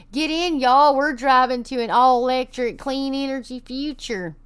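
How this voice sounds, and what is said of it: Exaggerated fake Texas accent. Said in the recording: “I did that my best fake Texas accent ever, because I am from Texas and we don't sound like that”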